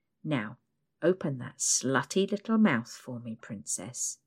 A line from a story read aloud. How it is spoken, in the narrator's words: he mumbles